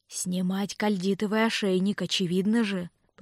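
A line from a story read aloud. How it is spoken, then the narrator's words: Hissed. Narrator (Russian): прошипел изгой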